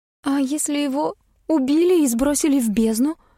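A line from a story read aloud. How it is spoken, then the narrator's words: Trembling voice. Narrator (Russian): дрожащим голосом предположила Эвелина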